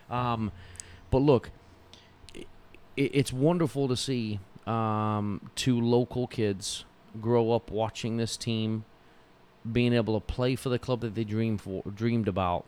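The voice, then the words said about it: English accent with partial Texan drawl. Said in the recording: “I used to sound like that. Now I have this wannabe makeup Texan accent,”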